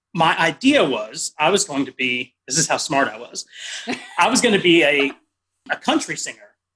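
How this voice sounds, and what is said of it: Slight Texas accent. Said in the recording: “you got a nice little Texas accent going on in there”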